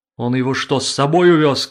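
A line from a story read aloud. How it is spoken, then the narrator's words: Shout. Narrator (Russian): кричала Брунгильда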